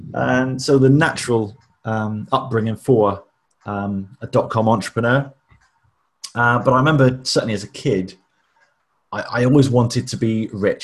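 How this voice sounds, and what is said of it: West Country English accent. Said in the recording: “You could probably tell from the accent that I'm not from the home counties. I'm not a BBC trained journalist. There was a little bit of a piratey lilt to the accent”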